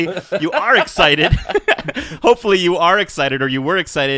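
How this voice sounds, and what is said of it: Usual voice. Nothing is said of it.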